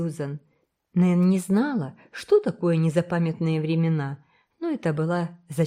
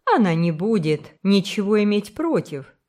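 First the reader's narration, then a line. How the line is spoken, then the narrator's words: Plain. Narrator (Russian): сказала Сюзан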